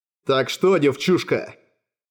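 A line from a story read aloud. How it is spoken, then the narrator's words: Growled. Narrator (Russian): прорычал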